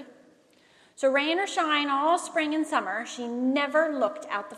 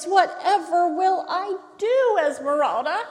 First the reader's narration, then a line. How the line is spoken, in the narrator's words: she cried